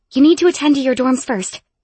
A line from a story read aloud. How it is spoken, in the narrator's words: Emmy breathlessly informed me as we ran up the stairs